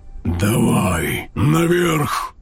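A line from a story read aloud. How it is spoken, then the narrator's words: Earth-shaking dragon roar. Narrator (Russian): прорычал черный дракон, сотрясая землю и деревья на краю поляны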